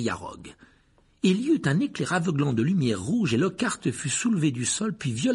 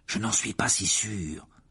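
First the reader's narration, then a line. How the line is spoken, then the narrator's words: Murmuring. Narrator (French): murmura Harry en voyant Rogue montrer les dents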